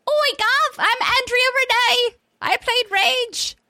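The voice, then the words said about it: Put-on accent. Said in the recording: “that accent ... weird accents”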